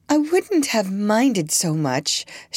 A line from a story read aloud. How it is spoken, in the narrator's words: she said in a high, silvery voice